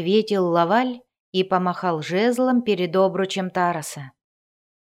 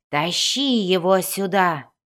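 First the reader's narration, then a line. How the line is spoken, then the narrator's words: Breathless exhale. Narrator (Russian): выдохнул он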